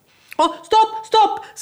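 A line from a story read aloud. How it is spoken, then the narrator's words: Children screaming. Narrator (Swedish): skrek alla ungarna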